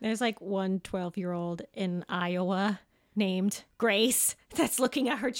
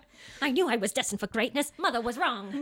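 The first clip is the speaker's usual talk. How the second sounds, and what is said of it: Old-fashioned 1920s-style accent. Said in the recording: “With that accent. It's like the 20s.”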